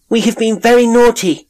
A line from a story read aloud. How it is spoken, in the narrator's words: they cried